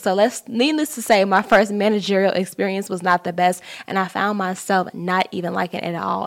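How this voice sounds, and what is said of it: Slight twang, slang-inflected speech. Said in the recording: “I know I have a little twang in my voice. I definitely speak slang. I will hit you with some Ebonics here and there.”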